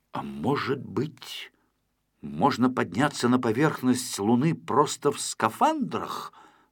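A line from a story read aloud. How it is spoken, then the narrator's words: Plain. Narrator (Russian): сказал Винтик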